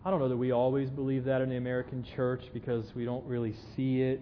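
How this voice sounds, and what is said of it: Southern American accent. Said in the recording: “can you hear my southern accent?”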